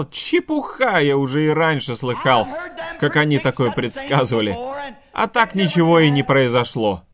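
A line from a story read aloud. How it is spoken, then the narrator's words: Mocking laugh. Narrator (Russian): посмеялся над ним и сказал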